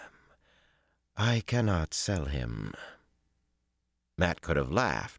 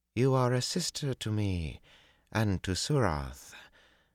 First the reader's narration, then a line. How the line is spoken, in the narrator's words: Tuon said in a surprisingly gentle voice